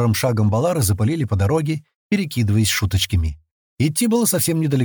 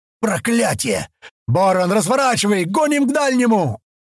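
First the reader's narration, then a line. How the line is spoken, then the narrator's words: Yelling. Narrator (Russian): Заорал Баасад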